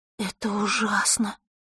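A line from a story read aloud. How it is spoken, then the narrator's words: Breathed out. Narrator (Russian): выдохнула Василиса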